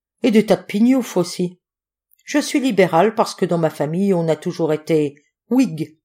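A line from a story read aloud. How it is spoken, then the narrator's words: Cordial tone. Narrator (French): me dit-il d'un ton cordial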